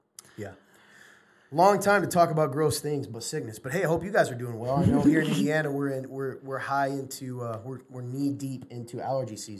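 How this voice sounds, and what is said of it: Congested, stuffy voice. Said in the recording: “I took a Sudafed right before this show, which could be why my voice is affected, because it's actually coming out of my head now.”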